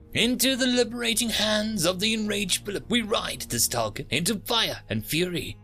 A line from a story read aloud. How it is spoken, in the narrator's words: the mantid 222, aka Triple D, screeched over the comlink